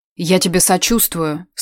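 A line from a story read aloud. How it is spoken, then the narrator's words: Flat wooden voice. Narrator (Russian): сказала Тамара деревянным голосом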